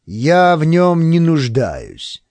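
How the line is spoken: Haughty commanding general's tone. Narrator (Russian): ответил Моури высокомерным тоном четырехзвездного генерала

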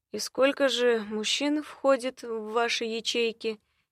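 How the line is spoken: Soft interruption. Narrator (Russian): мягко перебило

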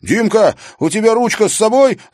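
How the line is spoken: Yelled. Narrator (Russian): заорал Тимофей

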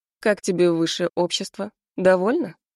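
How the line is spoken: Mocking. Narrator (Russian): Насмешливо произносит Мирон

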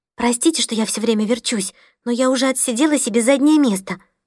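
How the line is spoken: Whispered apology. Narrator (Russian): шепотом повинилась

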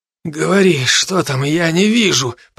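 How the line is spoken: Hoarse wheeze. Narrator (Russian): просипел я

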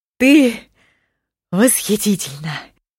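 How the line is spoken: Breathless man. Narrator (Russian): выдохнул он

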